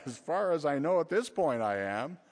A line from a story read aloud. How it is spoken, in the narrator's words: Flustered, I half laughingly replied